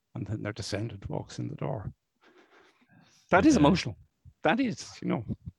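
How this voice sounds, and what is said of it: Choked-up, emotional voice. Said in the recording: “you probably can hear it in my voice, that's the lump in your throat moment”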